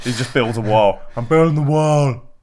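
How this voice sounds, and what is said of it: Bad impression of another person's voice. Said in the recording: “That was a bad impression. ... That sort of went a bit Schwarzenegger.”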